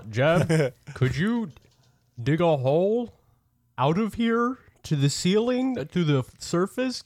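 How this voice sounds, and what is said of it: Slightly deeper character voice. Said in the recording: “I probably should be talking in a slightly deeper voice since I'm bigger”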